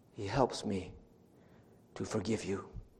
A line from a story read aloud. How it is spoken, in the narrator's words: she said very gently, very quietly